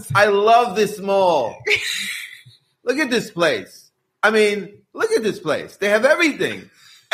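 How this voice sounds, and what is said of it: Put-on accent. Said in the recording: “accent he's putting on his voice”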